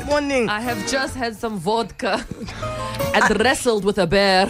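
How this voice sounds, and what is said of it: Put-on Russian accent. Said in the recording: “Last month we heard that accent, and it was good, but this is great... This is very good... Even Russians lose their Russian accent”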